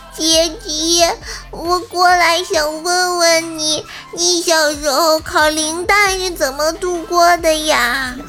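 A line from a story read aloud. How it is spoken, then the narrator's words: Crying little creature. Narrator (Chinese): 怪小兽呢边哭边说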